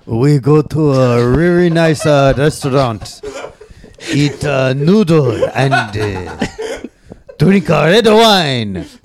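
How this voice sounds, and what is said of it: Put-on Japanese accent. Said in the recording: “does a Japanese accent very well. ... tell us what your Valentine's Day was like, but as told by your Japanese grandmother.”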